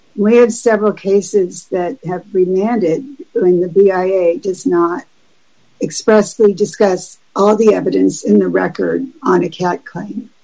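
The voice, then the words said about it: Hoarse, strained voice. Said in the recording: “after 4 days of doing this, I'm losing my voice.”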